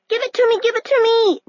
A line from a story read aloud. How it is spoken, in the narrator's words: Nell shouted, furious